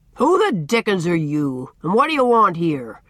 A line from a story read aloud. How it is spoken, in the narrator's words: he demanded, in his great resounding voice, with a fierce scowl